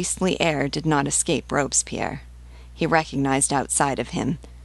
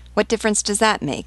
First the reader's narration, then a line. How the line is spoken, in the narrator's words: cried Danton